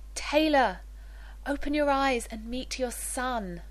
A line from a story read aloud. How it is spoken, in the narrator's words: Jennifer cried